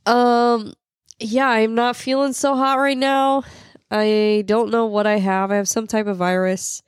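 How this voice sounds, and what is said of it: Sick, strained voice. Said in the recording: “I am sick, as you can tell from my voice ... I can barely breathe”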